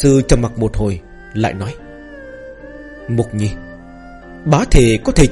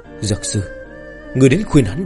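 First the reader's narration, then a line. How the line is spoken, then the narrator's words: Heavy sigh. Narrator (Vietnamese): Trưởng thôn sắc mặt hết sức phức tạp, đột nhiên thở dài một hơi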